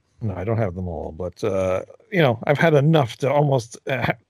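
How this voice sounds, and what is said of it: Hoarse, failing voice. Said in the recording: “Oh my God, I'm losing my voice. ... He's losing his voice.”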